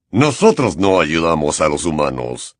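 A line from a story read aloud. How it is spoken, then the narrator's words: Centaur growling. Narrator (Spanish): gruñó el centauro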